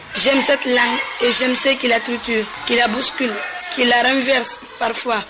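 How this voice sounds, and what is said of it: Non-native French accent. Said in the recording (French): “faire l'effort de parler le français avec mon accent, mes erreurs ou mes doutes”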